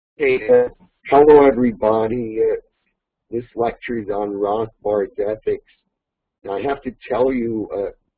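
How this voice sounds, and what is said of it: Hoarse, strained voice. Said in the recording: “I got a bit of a cold, with some laryngitis”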